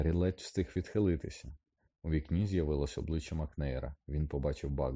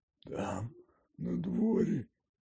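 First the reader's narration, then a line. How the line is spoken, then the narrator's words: Hoarse rasp. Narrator (Ukrainian): прохрипів Гегрід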